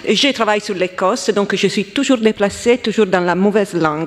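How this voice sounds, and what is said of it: Italian accent speaking French. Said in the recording (French): “je suis italienne, comme vous pouvez entendre de mon accent”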